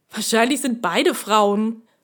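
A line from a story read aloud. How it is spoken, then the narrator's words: Man grunting. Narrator (German): grunzte einer der Kumpane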